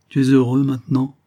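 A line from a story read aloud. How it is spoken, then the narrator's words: Plain. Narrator (French): lui demanda-t-il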